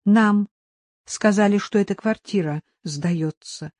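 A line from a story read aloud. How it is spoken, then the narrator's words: Peaceful tone. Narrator (Russian): сказал Аникеев мирным тоном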